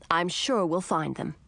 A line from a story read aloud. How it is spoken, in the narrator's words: said